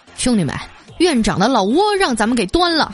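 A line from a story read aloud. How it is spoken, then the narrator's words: Leisurely, unhurried remark. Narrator (Chinese): 妇科主任啊悠悠的来了一句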